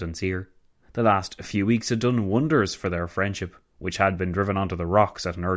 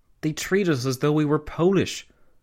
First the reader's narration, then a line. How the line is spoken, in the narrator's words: Karl Renner, the Austrian Chancellor, had exclaimed